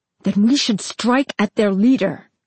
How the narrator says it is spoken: Arthas snapped

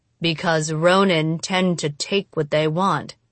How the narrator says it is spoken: Tatsumi answered flatly

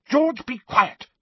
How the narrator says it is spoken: snapped Mrs

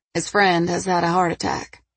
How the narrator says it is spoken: she said flatly

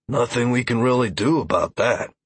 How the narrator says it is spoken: Deckard grunted

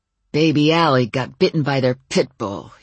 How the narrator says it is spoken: he growled

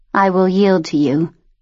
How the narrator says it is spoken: she said, her voice flat

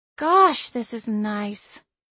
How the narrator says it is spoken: Cassie said, sighing contentedly

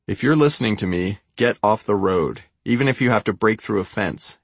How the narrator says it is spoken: England said

